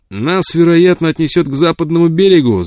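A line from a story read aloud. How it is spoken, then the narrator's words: Shout. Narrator (Russian): закричал он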